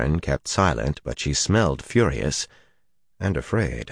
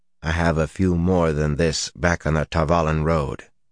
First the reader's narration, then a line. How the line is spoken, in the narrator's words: he said dryly